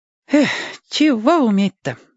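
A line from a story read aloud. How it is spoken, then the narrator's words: Sigh. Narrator (Russian): вздохнул Владик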